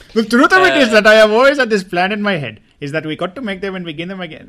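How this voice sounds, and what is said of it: Daniel Craig impression. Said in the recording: “can anyone do a Daniel Craig voice?”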